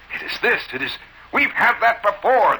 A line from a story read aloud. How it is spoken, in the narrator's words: the bellman indignantly said